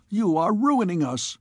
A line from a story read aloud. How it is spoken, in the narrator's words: he cried